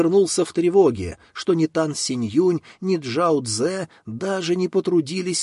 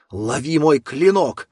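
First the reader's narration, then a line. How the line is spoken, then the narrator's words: Loud growl. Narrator (Russian): громко прорычал Хуша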